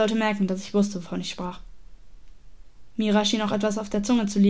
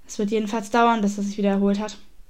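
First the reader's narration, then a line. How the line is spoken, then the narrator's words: Firm voice. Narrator (German): meinte mit fester Stimme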